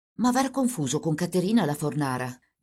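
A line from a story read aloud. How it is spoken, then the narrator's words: Under the breath. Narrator (Italian): gli disse sottovoce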